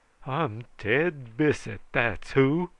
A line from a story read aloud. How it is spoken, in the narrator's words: howled he